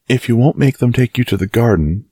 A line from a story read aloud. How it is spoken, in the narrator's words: pleaded Mary